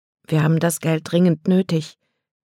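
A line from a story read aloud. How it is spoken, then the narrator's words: Quiet voice. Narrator (German): sagte Kate mit leiser Stimme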